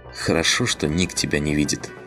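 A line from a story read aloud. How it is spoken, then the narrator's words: Soft laugh. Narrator (Russian): мягко рассмеялась Кали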